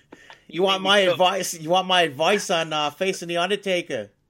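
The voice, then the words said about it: Poor put-on Boston accent. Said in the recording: “That's a terrible Boston accent.”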